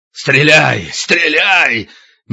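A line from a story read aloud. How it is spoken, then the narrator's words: Hoarse rasping. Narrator (Russian): Мельников хрипел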